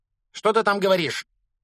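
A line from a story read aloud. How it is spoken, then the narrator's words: Woman barking behind door. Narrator (Russian): рявкнула тетя из-за двери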